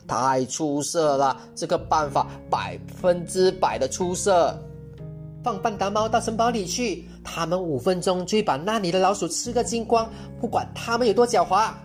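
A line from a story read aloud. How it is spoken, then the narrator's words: Loud and beaming. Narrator (Chinese): 我姥姥满脸堆笑，大声说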